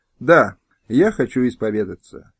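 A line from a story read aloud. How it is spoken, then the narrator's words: Quiet, suppressed anger. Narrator (Russian): Стефан, готовый яростно выругаться, тихо сказал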